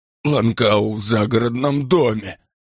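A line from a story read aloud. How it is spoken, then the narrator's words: Moaning. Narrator (Russian): простонал он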